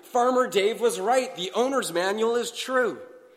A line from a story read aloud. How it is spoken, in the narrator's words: the villagers all shouted happily